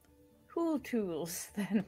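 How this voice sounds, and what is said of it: Speaks in a put-on accent. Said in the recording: “It's very difficult for me to say in this accent.”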